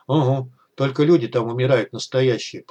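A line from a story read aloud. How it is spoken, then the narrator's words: Grumbling mutter. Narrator (Russian): пробурчал Артур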